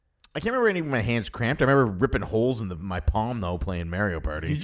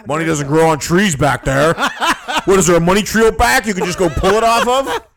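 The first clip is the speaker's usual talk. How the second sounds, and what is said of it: Imitates another person's voice. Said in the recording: “How's my dad impression?”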